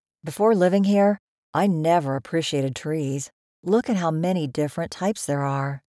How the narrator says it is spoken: said Justin

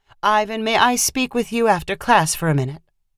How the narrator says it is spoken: Reed said in a nonchalant voice

